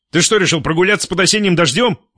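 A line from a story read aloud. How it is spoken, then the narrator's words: Surprised. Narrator (Russian): удивился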